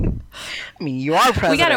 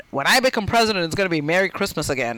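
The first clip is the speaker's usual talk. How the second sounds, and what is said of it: Donald Trump impression. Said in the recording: “your Trump impression ... I got to work on my Trump”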